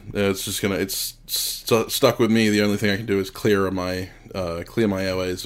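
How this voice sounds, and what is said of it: Croaky, congested voice. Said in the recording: “you may hear it in my voice a little bit, I'm a bit croaky”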